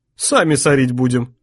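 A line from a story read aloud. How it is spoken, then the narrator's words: Hungry man's snort. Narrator (Russian): хмыкнул голодный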